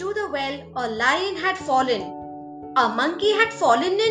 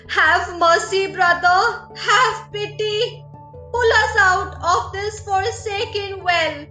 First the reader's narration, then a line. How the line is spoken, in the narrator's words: The four called out